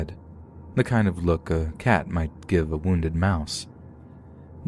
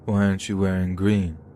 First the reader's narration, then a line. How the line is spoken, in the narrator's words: he asked me, slurring his words